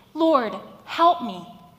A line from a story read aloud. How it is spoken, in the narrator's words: I literally cried to the heavens